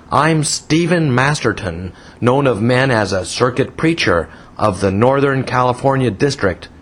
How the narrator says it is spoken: thundered

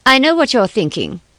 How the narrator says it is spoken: she said

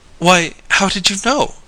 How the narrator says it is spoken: gasped Mary Louise

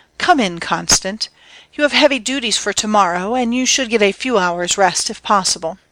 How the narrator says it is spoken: her say in the soft and appealing tones of love

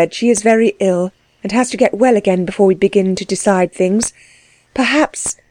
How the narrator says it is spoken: she added, wistfully

